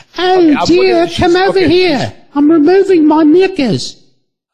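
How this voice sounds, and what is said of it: Put-on British accent. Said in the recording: “she's got that British accent.”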